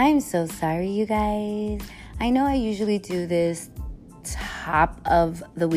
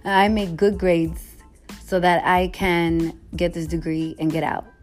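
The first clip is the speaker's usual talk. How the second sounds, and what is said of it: Imitates another person's voice. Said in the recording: “Talking like my parents”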